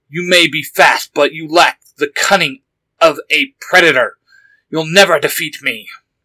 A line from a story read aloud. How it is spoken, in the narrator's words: The fox monster snarled in response